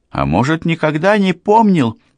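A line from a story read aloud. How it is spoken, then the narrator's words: Displeased woman exclaiming. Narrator (Russian): воскликнула женщина, которая, судя по голосу, такое безразличие к собственной жизни определенно не нравилось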